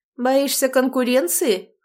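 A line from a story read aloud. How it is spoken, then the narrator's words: Smirking grunt. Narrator (Russian): хмыкнул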